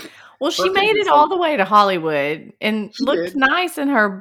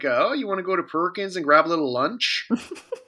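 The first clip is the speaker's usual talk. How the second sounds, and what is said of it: Put-on Midwestern accent. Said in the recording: “my Midwestern impression”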